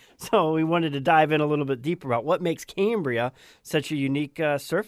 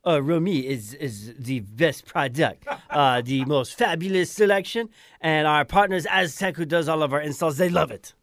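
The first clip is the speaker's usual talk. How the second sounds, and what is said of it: Put-on Croatian accent. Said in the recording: “in my Croatian accent.”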